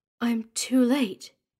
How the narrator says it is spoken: she said, her voice barely a whisper

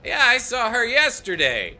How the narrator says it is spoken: somebody in the crowd shouts out

